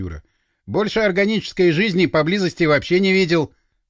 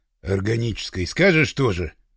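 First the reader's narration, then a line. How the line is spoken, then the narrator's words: Grumbling. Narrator (Russian): проворчал афганец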